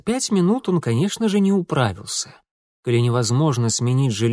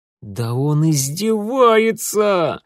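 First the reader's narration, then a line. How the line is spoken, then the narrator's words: Howl. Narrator (Russian): взвыл Митя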